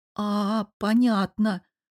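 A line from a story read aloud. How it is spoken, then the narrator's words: Drawn-out. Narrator (Russian): протянула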